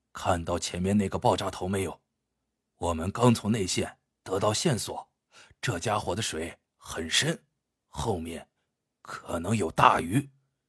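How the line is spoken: Quiet, low voice. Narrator (Chinese): 老何轻声对小程说

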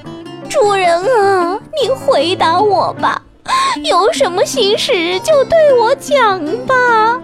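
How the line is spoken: Crying. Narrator (Chinese): 哭着说

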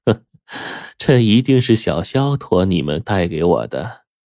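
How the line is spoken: Smiling old woman. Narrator (Chinese): 老太太面带微笑的说

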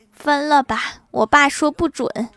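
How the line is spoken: Tearful speech. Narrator (Chinese): 女孩…哭着对男孩说

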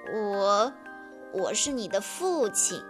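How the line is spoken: Sighing, low voice. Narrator (Chinese): 他叹了口气，低声说道

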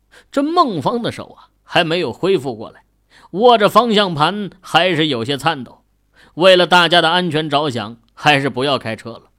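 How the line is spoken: Bitter smile. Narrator (Chinese): 孟芳嘴角露出苦涩的笑容，对后排的孟瑶说道

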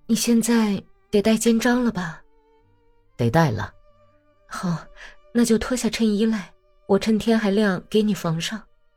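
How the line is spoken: Sighing. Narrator (Chinese): 娜塔莉亚叹了口气说

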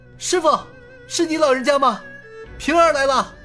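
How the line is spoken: Hurried joyful shout. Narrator (Chinese): 尹建平一阵狂喜，他急忙喊道

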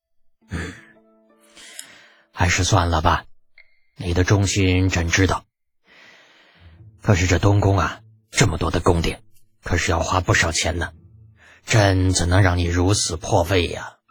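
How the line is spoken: Sighing after pause. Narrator (Chinese): 良久，方才叹了口气

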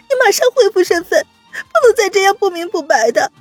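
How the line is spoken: Choked, serious. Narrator (Chinese): 温之夏突然哽咽，正色道

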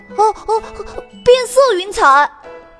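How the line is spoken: Crowd shouting from above. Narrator (Chinese): 空中传来了大家呼喊声

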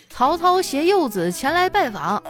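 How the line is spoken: Loud shout. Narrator (Chinese): 曹操走到门口，大声的喊道

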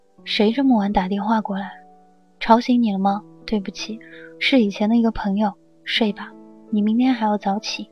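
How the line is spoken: Soft question. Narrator (Chinese): 他轻声问

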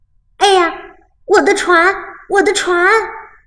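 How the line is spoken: Boy shouting. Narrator (Chinese): 小男孩大叫

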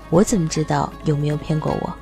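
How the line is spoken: Soft. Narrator (Chinese): 阿米尔轻声说

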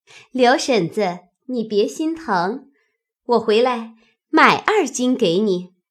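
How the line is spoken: Laughing. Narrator (Chinese): 口内笑说道

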